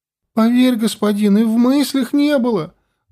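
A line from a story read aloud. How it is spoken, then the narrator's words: Teen's plaintive rapid pleading. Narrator (Russian): жалобно зачастил подросток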